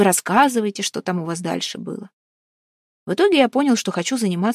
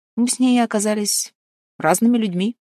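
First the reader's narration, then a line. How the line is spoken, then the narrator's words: Calm. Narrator (Russian): спокойно сказал Максим Владимирович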